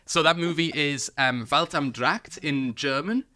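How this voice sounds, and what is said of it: Bad put-on German accent. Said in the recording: “Which is very good accent there ... Being able to speak words in a bad German accent”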